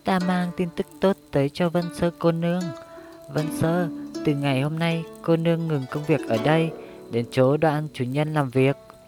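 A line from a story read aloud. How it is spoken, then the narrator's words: Cheerful eunuch voice. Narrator (Vietnamese): tổng quản thái giám Triệu Hữu Trung, với giọng việt đực và khuôn mặt tươi cười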